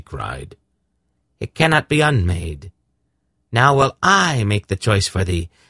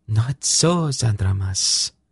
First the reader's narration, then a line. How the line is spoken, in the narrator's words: the seeress said in an icy voice